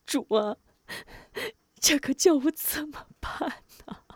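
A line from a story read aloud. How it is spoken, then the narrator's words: Tearful. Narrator (Chinese): 哭着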